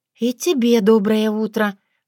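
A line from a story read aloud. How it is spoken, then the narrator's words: Sighing. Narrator (Russian): вздохнула Татьяна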